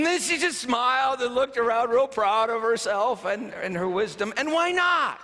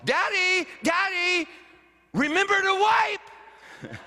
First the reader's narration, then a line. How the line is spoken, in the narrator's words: yells across the dining hall